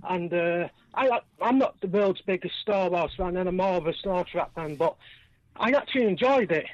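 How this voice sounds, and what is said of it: Manchester accent. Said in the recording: “I know that accent. Manchester. I know that accent. ... As a Liverpool fan, I'm aware of that accent.”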